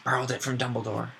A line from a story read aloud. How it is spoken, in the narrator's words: growled Moody